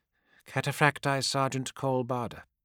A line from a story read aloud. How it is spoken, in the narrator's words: said Dal Ak in a hollow voice